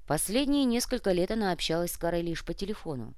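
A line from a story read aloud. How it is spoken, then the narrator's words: Sighing. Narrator (Russian): вздохнул тот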